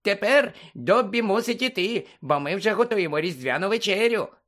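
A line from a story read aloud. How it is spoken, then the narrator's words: Squeak. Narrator (Ukrainian): запищав Добі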